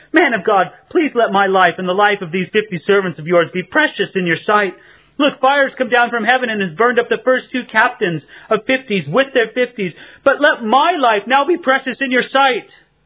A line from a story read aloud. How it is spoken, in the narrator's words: fell on his knees before Elijah and pleaded with him and said to him